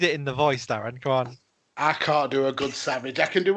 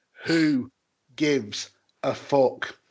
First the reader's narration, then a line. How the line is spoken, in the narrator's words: Savage to slowly repeat